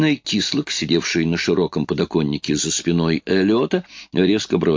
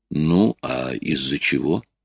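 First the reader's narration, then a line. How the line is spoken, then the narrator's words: Even voice. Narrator (Russian): ровным голосом продолжал Рой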